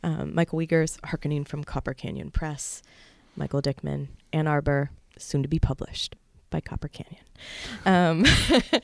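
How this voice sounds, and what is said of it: Polished radio announcer voice. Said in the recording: “there's my radio voice.”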